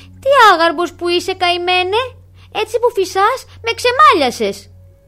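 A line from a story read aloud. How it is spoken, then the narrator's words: Angry shout. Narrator (Greek): φώναξε εκείνο με θυμό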